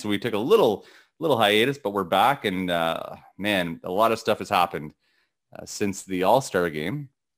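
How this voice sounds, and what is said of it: Gravelly morning voice, occasional cracking. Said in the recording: “why my voice cracked ... how gravelly my voice can sound in the morning after a cup of coffee”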